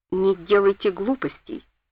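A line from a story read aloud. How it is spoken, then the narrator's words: Calm warning. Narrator (Russian): предупредил он меня спокойно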